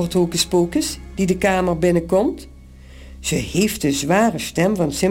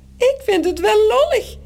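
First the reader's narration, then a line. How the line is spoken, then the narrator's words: Squeaking in another's voice. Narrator (Dutch): piept Morrel met de stem van Toos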